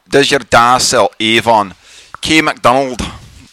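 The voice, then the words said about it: Bad put-on Scottish accent. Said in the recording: “That's the most Scottish name ever. This is the most offensive accent I've ever done. I'm very sorry to all our Scottish friends.”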